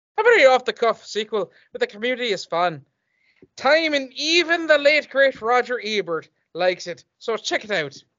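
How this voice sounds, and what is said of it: Put-on Irish accent. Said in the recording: “I'm gonna do this with a fun Irish accent.”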